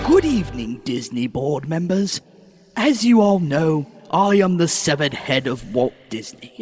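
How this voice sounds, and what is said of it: Put-on English accent. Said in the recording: “Why are you British now? ... All severed heads speak with an English accent.”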